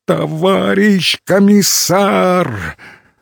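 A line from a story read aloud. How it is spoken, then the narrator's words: Began, then cried in horror. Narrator (Russian): начал было Кукушкин, и вдруг вскрикнул с ужасом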